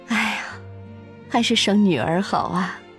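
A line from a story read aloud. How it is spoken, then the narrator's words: Pleased, repeated praise. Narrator (Chinese): 周夫人欣慰连声赞叹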